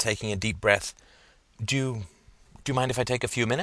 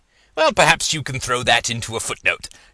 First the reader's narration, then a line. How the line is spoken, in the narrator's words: chuckled Professor Dint